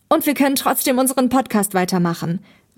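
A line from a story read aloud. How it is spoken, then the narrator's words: Calling out. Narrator (German): rief Thomas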